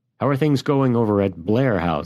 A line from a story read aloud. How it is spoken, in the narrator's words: he asked